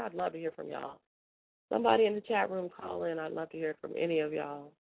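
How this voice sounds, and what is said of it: Voice giving out, losing voice. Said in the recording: “I'm losing my voice because I'm dehydrated.”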